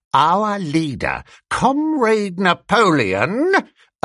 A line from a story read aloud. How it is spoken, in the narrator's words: announced Squealer, speaking very slowly and firmly